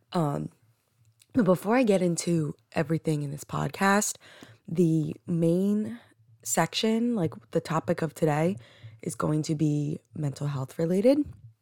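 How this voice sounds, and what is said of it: Groggy, just-woken-up voice. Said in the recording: “I just woke up, so these are the first words out of my mouth, which is why I sound so groggy.”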